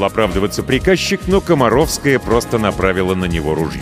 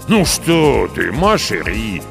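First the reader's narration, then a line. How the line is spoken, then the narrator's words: Drawn-out drawl. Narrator (Russian): протянул ее муж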